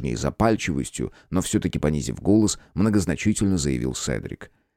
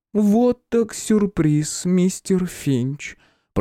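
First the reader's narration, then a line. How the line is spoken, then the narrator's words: Drawn out, displeased. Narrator (Russian): Протянула Виктория не слишком радостным тоном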